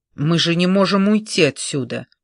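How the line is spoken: Indignant. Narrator (Russian): возмущенно произнес Элтон

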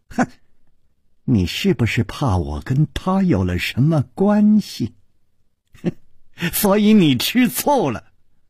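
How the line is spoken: Sly, mocking laugh. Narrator (Chinese): 宫南燕不怀好意地笑着说

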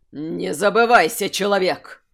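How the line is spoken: Near growl, elder. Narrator (Russian): Едва ли не прорычал старейшина

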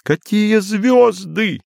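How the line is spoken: Laughing. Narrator (Russian): все еще смеясь

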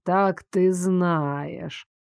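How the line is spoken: Drawn-out, choked words. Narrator (Russian): протянул Айрон, будто слова застряли у него поперек горла

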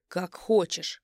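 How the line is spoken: Barked. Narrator (Russian): Рявкает он

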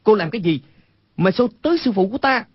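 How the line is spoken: Angry shout. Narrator (Vietnamese): Quách Tĩnh tức giận quát lên

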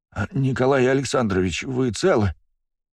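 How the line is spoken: Trembling voice. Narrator (Russian): дрожащим голосом произнес он

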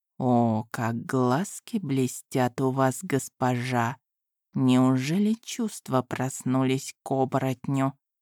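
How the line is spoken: Mouthed whisper. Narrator (Russian): Эти слова он прошептал одними губами

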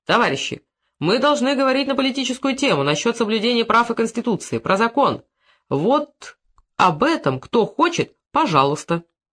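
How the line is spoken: Stern. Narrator (Russian): строго сказал

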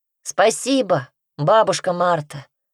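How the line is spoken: Loud. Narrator (Russian): громко сказал Петька

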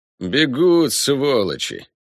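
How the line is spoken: Near growl. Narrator (Russian): почти прорычал Ламброс

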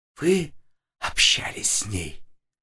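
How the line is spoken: Breathy, over phone. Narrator (Russian): выдохнула в трубку Ряжская

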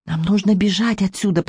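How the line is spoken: Whispered. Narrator (Russian): прошептала я

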